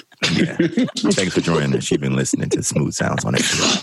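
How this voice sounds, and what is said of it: Smooth radio announcer voice. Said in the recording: “the little radio voice you got popping right now... I'm on like, NPR... Talking his radio voice all the time.”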